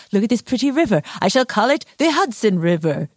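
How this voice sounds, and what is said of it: Henry Hudson impression. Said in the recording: “a very good Henry Hudson impression”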